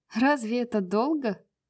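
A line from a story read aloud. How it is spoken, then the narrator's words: Laughing. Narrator (Russian): засмеялась Брайс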